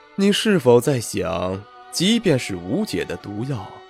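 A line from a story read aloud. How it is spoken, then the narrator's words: Cool, detached. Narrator (Chinese): 魏凌风淡淡道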